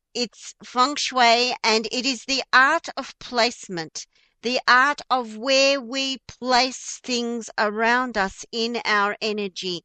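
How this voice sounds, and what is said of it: Broad Australian accent. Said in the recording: “my Australian accent, right? My real Aussie dinky die accent.”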